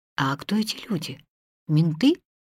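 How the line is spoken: Whispered. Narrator (Russian): прошептала она

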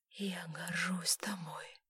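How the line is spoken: Whisper. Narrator (Russian): прошептала Элизабет

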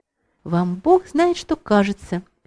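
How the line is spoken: Quiet tender blushing interruption. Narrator (Russian): перебила вдруг Саша краснее, тихим и ласковым голосом

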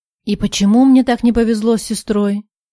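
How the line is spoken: Sigh. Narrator (Russian): Вздохнул Влад

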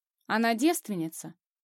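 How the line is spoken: Dry question. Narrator (Russian): уточняет Артур сухо

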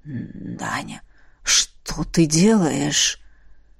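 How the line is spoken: Husky voice. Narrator (Russian): Хрипотца в голосе Фабриса

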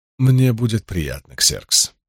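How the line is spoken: Soft voice. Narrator (Russian): мягко сказал Дарий

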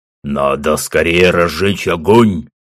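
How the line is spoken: Loud bark. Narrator (Russian): гаркнул Гуга

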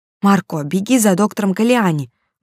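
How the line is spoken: Child exclaiming. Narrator (Russian): воскликнул второй ребенок

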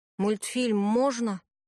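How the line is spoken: Grumbling. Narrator (Russian): пробурчал Никита

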